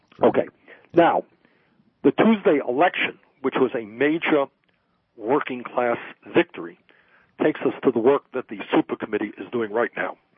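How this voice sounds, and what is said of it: Slightly shaky, ill-sounding voice. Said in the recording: “my voice is a little bit shaky. I'm dealing with some bronchitis here”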